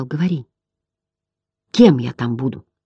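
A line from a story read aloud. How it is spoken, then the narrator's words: Hesitant whisper. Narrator (Russian): Немного поколебавшись, Атрей прошептал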